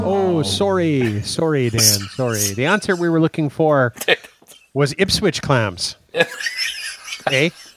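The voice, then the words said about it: Poor put-on Canadian accent. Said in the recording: “my very poor impersonation of my Canadian heritage”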